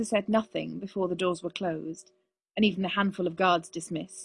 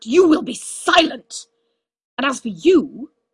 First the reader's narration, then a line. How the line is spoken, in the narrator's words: snapped